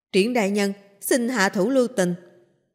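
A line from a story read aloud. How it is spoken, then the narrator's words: Hurried loud call. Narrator (Vietnamese): Kim Kiền vội vàng cao giọng hô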